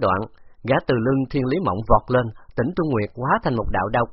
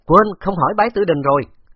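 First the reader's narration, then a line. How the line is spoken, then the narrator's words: Laughing loudly. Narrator (Vietnamese): Khấu Trọng cười lớn nói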